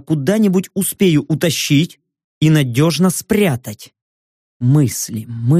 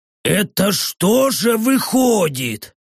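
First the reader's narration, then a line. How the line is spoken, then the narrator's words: Hoarse ferocious orc voice. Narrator (Russian): звучащей в хриплом голосе орка свирепости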